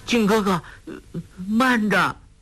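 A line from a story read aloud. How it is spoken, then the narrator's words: Trembling voice. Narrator (Chinese): 颤声说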